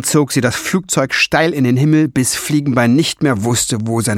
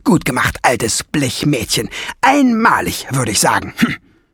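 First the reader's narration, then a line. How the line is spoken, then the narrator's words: Very loud roar after them. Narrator (German): Nesselbrand brüllte so laut hinter ihnen her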